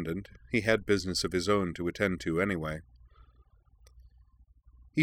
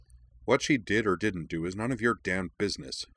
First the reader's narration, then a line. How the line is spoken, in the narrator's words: Corwin snapped